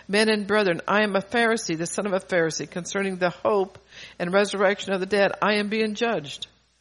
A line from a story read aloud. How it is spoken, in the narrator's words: he cried out in the council